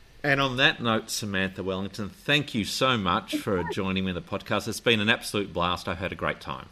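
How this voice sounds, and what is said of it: Australian accent. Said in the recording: “listening to an Australian accent”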